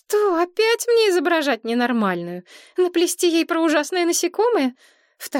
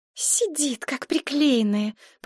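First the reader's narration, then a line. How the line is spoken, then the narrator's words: Hissed. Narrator (Russian): прошипела Мария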